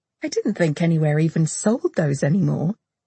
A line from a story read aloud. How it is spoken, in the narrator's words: Sam said, laughing